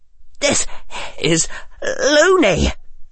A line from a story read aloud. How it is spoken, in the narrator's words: gasped Neville with what tiny amount of breath he could spare from being completely out of breath